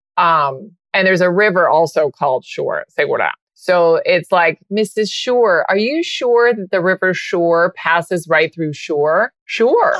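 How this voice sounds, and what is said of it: Spanish accent from Spain. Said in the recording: “you got an accent... It's from Spain... Different from Latino.”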